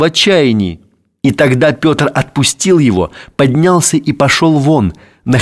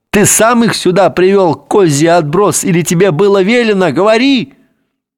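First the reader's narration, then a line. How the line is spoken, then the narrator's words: Loud yell. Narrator (Russian): заорал в голос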